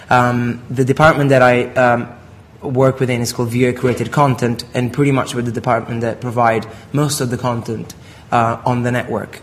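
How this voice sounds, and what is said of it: Italian accent. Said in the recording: “if you are from Italy, like I am, that's the funny accent”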